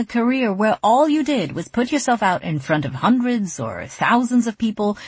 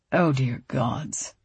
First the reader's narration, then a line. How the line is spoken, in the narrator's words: Rishi muttered, his mouth twisting into a mixture of distaste and pity